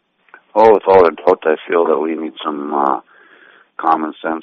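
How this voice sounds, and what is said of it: Gruff voice from a cold. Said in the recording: “I have a little bit of a cold, so I sound a little more gruff than normal.”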